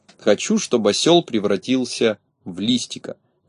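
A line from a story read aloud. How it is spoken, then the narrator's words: Quiet. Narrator (Russian): негромко сказал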